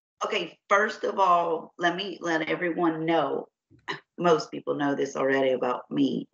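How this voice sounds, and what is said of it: Deep, raspy, sick-sounding voice. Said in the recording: “I already have a pretty deep, raspy voice, but you guys, I have a sinus infection and some fun bronchitis going on”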